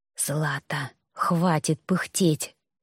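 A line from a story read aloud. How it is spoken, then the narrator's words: Whisper. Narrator (Russian): прошептал ректор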